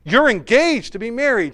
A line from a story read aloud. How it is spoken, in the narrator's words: exclaimed